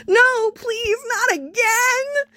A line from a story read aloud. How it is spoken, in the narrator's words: The man overboard screeched